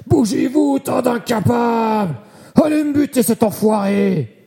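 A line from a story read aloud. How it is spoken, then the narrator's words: Yelled. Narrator (French): hurla-t-il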